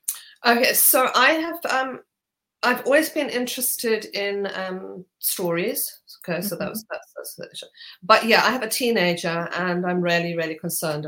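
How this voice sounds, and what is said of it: Zimbabwean accent. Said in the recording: “I hear a gorgeous accent in there as well ... from Zimbabwe”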